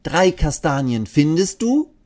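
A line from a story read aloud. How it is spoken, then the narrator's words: Calling out. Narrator (German): ruft sie Eddie zu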